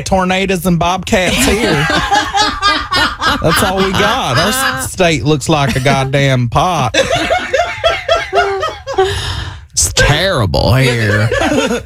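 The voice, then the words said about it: Put-on Oklahoma Southern accent. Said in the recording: “Oklahoma accent just kind of like a little bit like a fruity South ... They do have that accent.”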